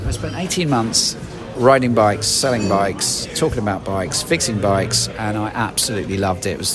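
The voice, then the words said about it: British accent. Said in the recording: “these guys, they love British accent”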